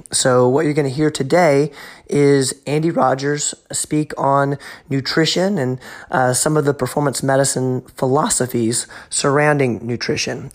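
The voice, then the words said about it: Congested voice from a cold. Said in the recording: “As you can probably tell, I have a little bit of a cold”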